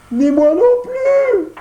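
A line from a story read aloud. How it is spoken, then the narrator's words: Crying out, sobbing, stumbling. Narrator (French): s'écria en pleurant et en trébuchant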